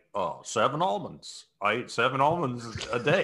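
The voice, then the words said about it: Imitates another person's voice. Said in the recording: “best Obama impression I've ever heard”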